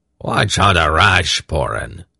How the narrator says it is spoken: said gruffly

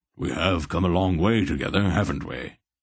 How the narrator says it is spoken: he said to the orb in a conversational tone

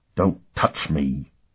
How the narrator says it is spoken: Sparhawk spat out the words

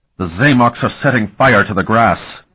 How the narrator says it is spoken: he said angrily

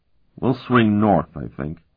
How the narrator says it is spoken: he said quietly to the others

